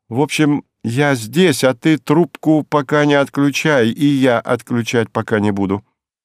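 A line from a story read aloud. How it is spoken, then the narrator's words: Deliberately loud request. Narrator (Russian): попросила нарочито громко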